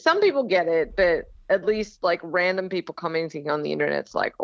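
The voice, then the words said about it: Australian accent with slight Southern US touches. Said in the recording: “predominantly Australian accent, but then there's, you know, so like y'all has definitely crept in there”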